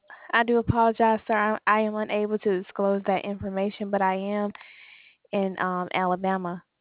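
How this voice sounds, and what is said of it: Alabama Southern US accent. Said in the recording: “Alabama. That's the accent I'm getting.”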